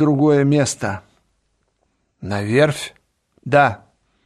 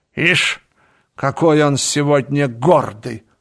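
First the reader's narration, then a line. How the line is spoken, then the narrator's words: Snorting. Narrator (Russian): фыркнула она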